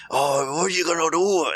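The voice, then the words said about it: Poor imitation of Scottish accent. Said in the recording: “That Irish accent. Oh, is it Scottish? ... Scottish. ... it's terrible, sorry.”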